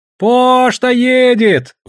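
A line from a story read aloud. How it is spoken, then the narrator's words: Sudden distant shout. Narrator (Russian): вдруг прокричал со льда Санка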